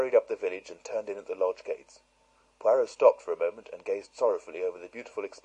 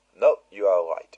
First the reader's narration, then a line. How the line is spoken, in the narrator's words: said